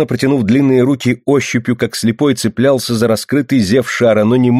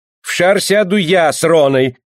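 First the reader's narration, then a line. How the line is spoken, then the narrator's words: Shout. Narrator (Russian): крикнул подоспевший Бах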